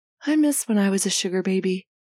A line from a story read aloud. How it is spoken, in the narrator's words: Felix says wistfully